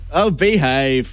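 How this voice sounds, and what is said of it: British accent, Austin Powers impression. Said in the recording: “Just say oh, behave in a British accent ... Austin Powers”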